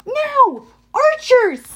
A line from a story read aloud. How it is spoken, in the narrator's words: shouted Annabeth